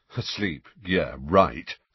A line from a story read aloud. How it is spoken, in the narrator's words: said Fred in an undertone